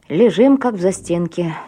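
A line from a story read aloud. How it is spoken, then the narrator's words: Displeased, through gritted teeth. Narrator (Russian): недовольно процедила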